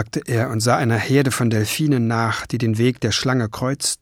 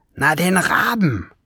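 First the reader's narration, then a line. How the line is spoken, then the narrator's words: Hissed. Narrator (German): zischte Schwefelfell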